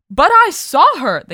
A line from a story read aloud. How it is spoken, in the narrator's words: the king exclaimed